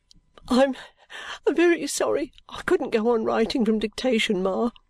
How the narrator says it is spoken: sobbed Caddy

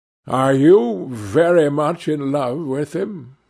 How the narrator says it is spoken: asked

